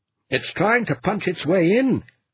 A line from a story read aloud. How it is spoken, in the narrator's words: Carl bellowed into the handset